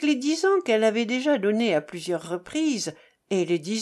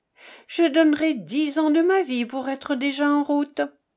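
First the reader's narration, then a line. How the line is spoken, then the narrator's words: Exclamation. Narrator (French): s'écria-t-elle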